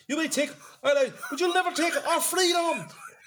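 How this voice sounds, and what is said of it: Put-on Scottish accent. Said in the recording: “Anyone do a Scottish accent?”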